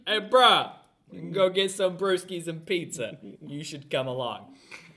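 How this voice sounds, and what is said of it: Near John Wayne impression. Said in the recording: “You almost went to John Wayne that time... You should stop doing accents... Voices are not your thing.”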